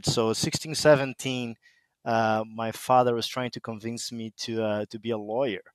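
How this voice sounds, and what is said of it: Brazilian accent. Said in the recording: “as you can tell by my weird accent, I'm from Brazil”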